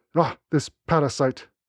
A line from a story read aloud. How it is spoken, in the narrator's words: he spat